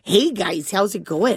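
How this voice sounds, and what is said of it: Put-on Canadian-style accent. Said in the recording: “I want Northern California to be Canada so bad. ... Now, that's a nice accent, not a sexy one.”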